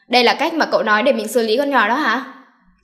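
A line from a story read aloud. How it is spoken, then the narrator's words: Angry. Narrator (Vietnamese): Tử Kỳ tức giận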